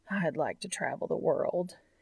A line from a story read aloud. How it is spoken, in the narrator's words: sighs